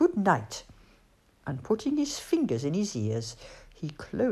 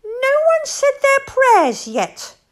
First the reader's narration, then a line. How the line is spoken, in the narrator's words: squeaked Bat